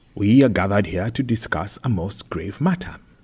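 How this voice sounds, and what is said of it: Carefully enunciated, mixed Kenyan-British accent. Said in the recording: “enunciating every word in an accent which defied categorization. Just when you were sure he was speaking the Queen's English, the mayor veered off center, exposing what sounded like Luo roots. Even then, there was the giveaway Kariobangi accent with its slow vowels and incongruent hard consonants.”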